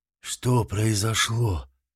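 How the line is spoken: Hoarse rasp. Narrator (Russian): прохрипел Гвидо, ошалело

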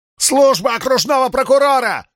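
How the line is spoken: Full-voice yell. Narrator (Russian): заорал во весь голос

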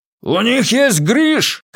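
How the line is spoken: Shouted. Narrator (Russian): крикнул Доути

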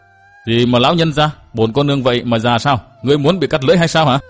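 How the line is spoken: Shouting. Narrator (Vietnamese): Đường Phùng Kỳ quát

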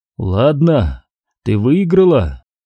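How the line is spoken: Strained, forced words. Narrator (Russian): обрел голос, сумел из себя выдавить

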